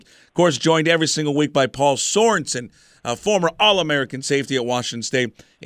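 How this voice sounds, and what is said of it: Hoarse, nearly lost voice. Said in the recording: “My voice is basically lost because I was screaming so much at the game last week.”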